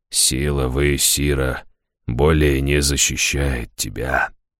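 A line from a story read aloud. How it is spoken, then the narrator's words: Quiet, bitter. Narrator (Russian): тихо, с горечью проговорил он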